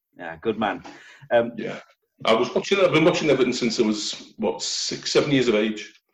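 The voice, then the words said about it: Liverpool Scouse accent. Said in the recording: “everybody can tell by your accent you're a Scouser”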